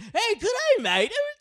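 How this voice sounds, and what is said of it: Mock Australian accent. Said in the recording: “if we make fun of the Australian accent”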